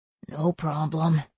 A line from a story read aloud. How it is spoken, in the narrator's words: he near whispered